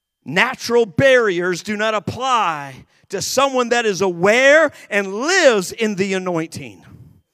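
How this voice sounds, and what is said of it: Yelling, fervent preaching. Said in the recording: “I'm not yelling at you. I'm yelling with you.”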